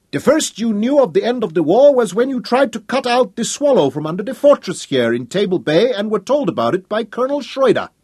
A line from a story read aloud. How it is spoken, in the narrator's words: he shouted at Cumbrae